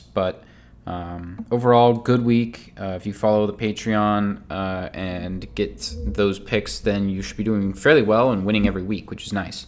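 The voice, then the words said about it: Nasal, congested voice from a cold. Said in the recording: “I'm a little sick, so I'm sorry if I sound a little nasally. Getting over a cold”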